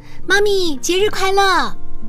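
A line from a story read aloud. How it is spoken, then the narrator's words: Child calling out. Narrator (Chinese): 我儿子……喊着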